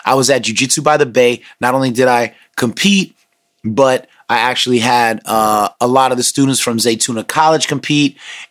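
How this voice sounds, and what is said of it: Slightly strained, worn voice. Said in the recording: “my voice sounds a little weird in this episode, it's because I've been screaming all day”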